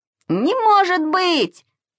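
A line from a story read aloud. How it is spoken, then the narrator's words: Squealing. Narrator (Russian): визжал Саша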